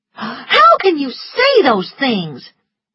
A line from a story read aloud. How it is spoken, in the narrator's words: said angrily